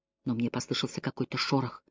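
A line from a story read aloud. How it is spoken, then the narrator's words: Whisper. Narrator (Russian): прошептала она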